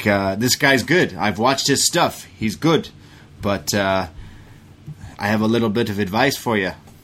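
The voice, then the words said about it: Unclear put-on accent, imitating someone. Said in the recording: “I don't know what accent you're going for today.”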